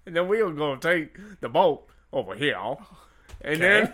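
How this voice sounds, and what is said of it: Put-on Louisiana swamp accent. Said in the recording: “Was that your swamp voice? ... Can you do a better swamp voice? ... With all apologies to people from Louisiana.”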